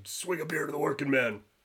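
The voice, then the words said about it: Poor Stone Cold Steve Austin impression. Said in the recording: “As Stone Cold would say ... My impression's awful.”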